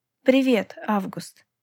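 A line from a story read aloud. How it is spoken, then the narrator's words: Plain. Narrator (Russian): ответила я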